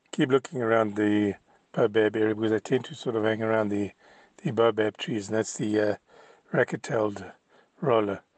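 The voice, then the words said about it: Hoarse, sore-throated voice. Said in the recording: “Excuse my voice, ... I think I might have got a bit of a sore throat, so if I don't come across quite myself”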